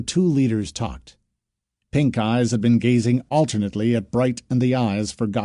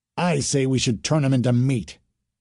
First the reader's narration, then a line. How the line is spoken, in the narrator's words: Bright's First said firmly